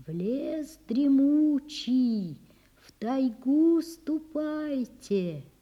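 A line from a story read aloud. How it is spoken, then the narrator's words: Barely audible whispering wind. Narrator (Russian): Прошептал едва слышно ветер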